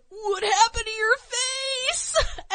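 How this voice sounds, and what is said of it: Imitates cartoon character Milhouse's voice. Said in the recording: “unintentional great Milhouse impression”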